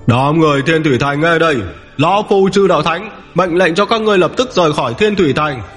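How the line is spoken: Roaring. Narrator (Vietnamese): Chỉ đạo thánh gầm lên

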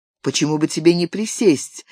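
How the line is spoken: Calm offer. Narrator (Russian): спокойно предложил Виктор

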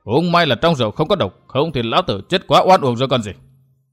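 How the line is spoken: Angry voice. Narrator (Vietnamese): Người mặt sẹo tức giận

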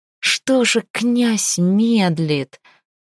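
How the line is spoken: Near-pleading warrior. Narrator (Russian): Почти взмолился подле Калакира кто-то из воев, собранного для вылазки отряда

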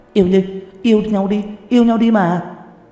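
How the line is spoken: Group of women shouting. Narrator (Vietnamese): Một đám hổ nữ hét to

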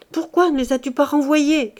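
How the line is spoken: Muffled old woman crying out. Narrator (French): cria-t-elle en cachant sa tête blanchie dans le sein du jeune homme

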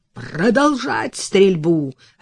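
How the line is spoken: Bark. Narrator (Russian): рявкнул Стаффорд

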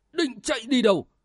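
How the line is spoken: Loud roar. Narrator (Vietnamese): y gầm vàng, lớn tiếng nói

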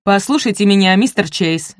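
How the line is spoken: Barking. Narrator (Russian): рявкнул Коннор

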